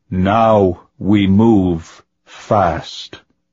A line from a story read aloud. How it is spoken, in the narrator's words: Vidge called out, his tone as slow and tomb-haunted as before